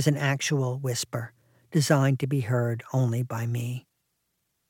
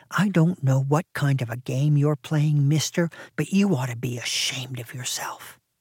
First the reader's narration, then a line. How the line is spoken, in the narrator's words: whispering